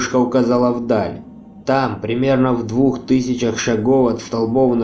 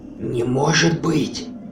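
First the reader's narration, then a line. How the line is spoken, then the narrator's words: Stunned whisper. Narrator (Russian): прошептала пораженная Хона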